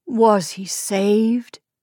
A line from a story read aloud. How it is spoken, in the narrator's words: Isaac asked in a choked voice